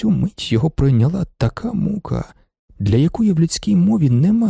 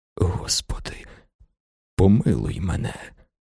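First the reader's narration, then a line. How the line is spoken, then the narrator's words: Whisper. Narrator (Ukrainian): прошепотів він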